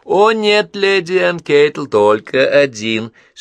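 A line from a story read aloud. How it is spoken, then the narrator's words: Laughing protest. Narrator (Russian): смеясь, протестовала Вероника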